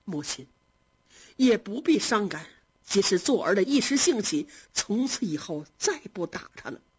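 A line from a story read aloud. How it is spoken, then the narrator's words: Ingratiating smile. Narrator (Chinese): 贾政又陪笑说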